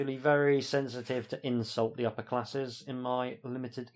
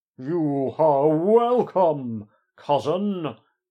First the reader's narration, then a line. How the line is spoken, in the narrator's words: booms Heaver